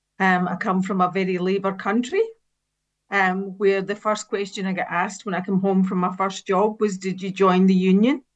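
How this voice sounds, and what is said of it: Speaks with a slight accent. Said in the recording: “You probably noticed that I have a bit of an accent.”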